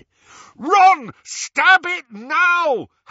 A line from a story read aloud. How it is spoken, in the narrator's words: Harry bellowed